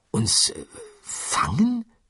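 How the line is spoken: Murmuring. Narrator (German): murmelte Arthur

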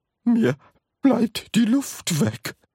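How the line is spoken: Gasping old woman. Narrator (German): keuchte Grandma Georgina

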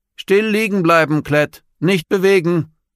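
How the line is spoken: Calling out. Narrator (German): rief Lilio

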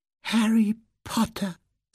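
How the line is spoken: Piercing squeaky voice. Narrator (German): sagte das Geschöpf mit so durchdringender Piepsestimme, dass Harry ganz sicher war, man würde sie unten hören

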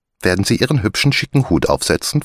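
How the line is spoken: Plain. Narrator (German): fragte Maria

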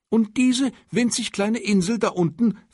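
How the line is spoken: Excited question. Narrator (German): fragte der Kaiser aufgeregt

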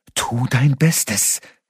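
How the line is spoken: Angry elf hiss. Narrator (German): zischte die Elfin erbost

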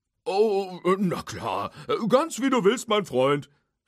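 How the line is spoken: Loud call. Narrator (German): rief Hook laut

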